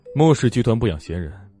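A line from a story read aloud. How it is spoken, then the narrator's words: Cold. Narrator (Chinese): 莫千行冷冷开口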